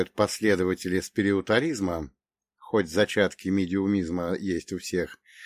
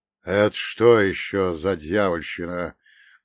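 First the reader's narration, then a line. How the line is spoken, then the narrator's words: Muffled question. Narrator (Russian): глухо спросил Фролов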